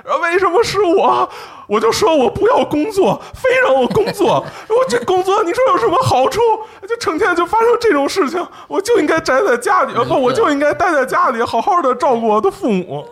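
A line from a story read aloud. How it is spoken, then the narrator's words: Loud wailing. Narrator (Chinese): 那个在地上那个人啊，大声哭喊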